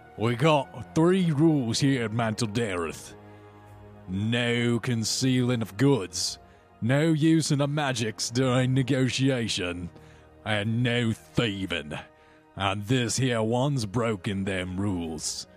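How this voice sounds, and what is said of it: Put-on fantasy character accent. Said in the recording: “totally doing the wrong accent for this Duergar”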